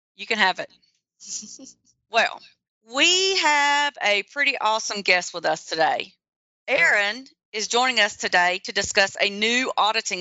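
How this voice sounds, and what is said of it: Slight Southern US accent. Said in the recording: “my little southern accent”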